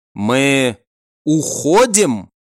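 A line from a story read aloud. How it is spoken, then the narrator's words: Slow speech. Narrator (Russian): медленно произнес Шин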